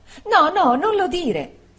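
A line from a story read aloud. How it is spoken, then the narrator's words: Exclaimed. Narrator (Italian): esclamò Dora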